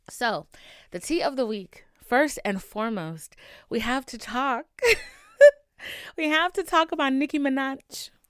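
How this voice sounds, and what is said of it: Rough, strained voice. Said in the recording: “excuse my voice ... my health was a mess this week. So my voice is a little questionable”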